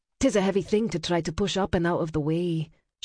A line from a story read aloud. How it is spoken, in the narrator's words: she murmured